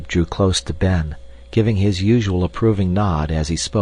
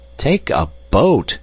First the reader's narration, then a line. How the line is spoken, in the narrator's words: exclaimed Ben in dismay